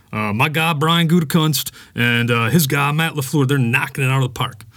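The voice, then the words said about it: Bad Mark Murphy impression. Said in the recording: “my Mark Murphy impersonation ... I'm horrible at impersonations”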